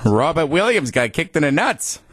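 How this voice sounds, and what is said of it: Put-on Boston accent. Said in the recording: “in your Boston accent?”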